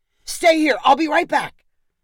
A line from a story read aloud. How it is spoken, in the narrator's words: Tony shouted